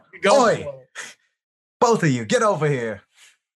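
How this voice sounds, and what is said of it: Bad put-on British accent. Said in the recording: “my worst British accent because I don't know how to do that”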